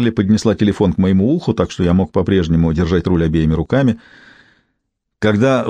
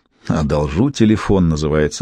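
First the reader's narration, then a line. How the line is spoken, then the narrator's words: Snorting. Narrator (Russian): хмыкнул я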